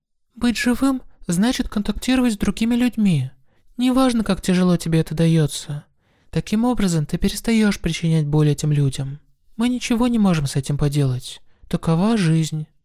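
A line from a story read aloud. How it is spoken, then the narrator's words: Calm explanation. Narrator (Russian): спокойно разъяснила Суэма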